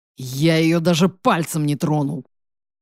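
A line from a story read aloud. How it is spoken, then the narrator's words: Gloomy furious growl. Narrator (Russian): Хмуро прорычал, взбешенный ее обвинениями Матвей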